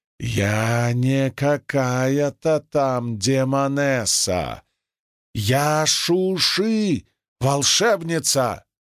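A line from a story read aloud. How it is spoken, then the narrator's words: Angry hiss. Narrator (Russian): Она сердито прошипела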